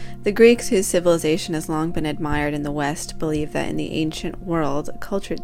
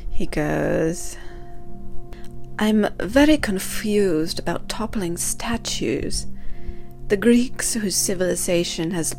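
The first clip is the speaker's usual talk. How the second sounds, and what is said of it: Poorly done put-on accent. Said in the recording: “I'm going to stop doing the accent, I can't do it.”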